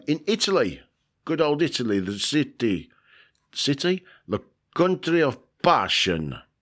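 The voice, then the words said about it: Put-on accent sounding like Dracula. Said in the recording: “I don't know what accent was. It sounded more like Dracula.”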